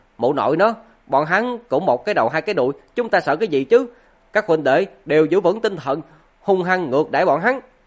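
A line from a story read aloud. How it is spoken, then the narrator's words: Aggressive loud voice. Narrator (Vietnamese): Ngô Huyền hung hăng lớn tiếng nói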